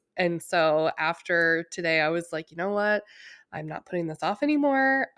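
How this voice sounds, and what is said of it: Slightly nasal, congested voice. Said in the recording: “my voice is a little nasally ... third round of a cold”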